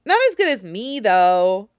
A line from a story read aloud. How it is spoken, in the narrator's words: Kuina says with a laugh, sounding quite content to boast about her skill